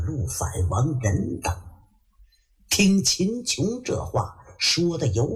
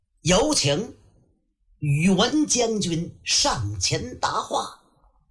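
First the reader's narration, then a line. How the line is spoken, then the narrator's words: Loud call. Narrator (Chinese): 秦琼高声喊喝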